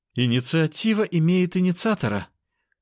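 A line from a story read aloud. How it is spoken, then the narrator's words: Moaning. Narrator (Russian): простонала сестра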